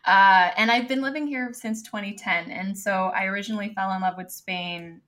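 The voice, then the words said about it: American Los Angeles accent. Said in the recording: “I came from Los Angeles, as you can tell by the accent.”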